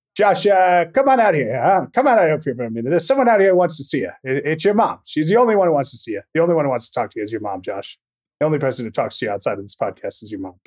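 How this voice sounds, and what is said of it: Charles Durning impression. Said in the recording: “do an impression from the movie ... the Charles Durning impression ... It's a good impression, at least of the character that he plays in this movie.”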